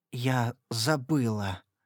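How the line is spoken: Dry-lipped whisper. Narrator (Russian): прошептала я пересохшими внезапно губами

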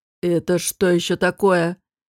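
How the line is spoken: Hoarse question. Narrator (Russian): хрипло спросил Чанмир

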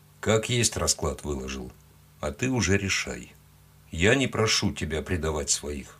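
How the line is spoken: Quiet. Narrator (Russian): тихо добавил он

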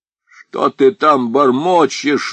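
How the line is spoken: Shouting. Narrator (Russian): закричал Аргылов

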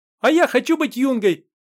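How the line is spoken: Shouting. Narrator (Russian): выкрикнул Ваня Громов

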